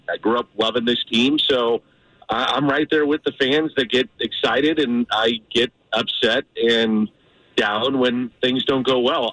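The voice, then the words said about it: Voice affected by a cold. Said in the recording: “You probably tell I got a little cold right now.”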